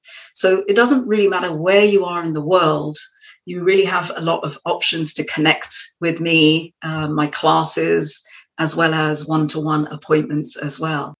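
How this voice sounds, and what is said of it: English accent. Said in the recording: “you have got a very English accent. How come you never lost it?”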